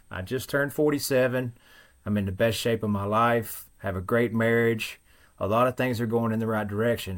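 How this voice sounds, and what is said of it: Thick Western Kentucky country accent. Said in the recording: “as you can tell, I'm not from the Northeast. Very thick accent. I have found that there is a particular dialect that only exists in a very small section of Western Kentucky ... I'm just country”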